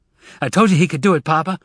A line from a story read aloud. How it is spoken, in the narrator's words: he said excitedly